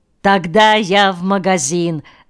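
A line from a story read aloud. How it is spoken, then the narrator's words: Laughing. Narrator (Russian): засмеялся Миронов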